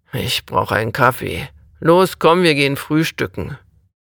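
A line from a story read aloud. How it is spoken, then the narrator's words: Grumpy growl. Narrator (German): Roland missmutig knurrte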